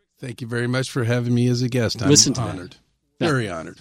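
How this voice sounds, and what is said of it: Rich radio-announcer voice. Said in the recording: “What a radio voice you've got ... It's tremendous.”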